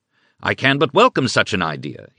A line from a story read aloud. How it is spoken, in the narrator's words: he exclaimed